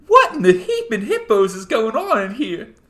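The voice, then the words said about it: Imitates a cartoon nurse character's voice. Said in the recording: “Thank you for that impersonation. ... That was pretty good. ... Well, it was something.”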